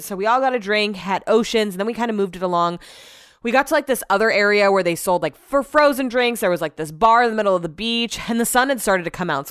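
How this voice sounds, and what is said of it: Out of breath, panting. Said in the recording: “I'm out of breath. I was just running up and down the stairs.”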